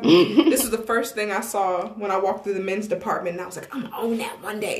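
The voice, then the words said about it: Tennessee country accent with twang. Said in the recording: “I have a country accent. ... I'm from Tennessee. That is my accent. ... let a little twang out”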